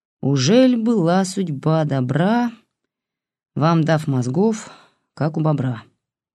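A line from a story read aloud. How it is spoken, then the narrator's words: Gloomy rhyming. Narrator (Russian): Мрачно срифмовал он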